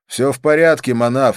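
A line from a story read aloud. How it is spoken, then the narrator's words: Said loudly. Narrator (Russian): сказал я громко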